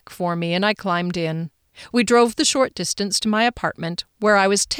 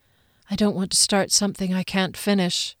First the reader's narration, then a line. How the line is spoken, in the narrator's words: he whispered, his breath on my cheek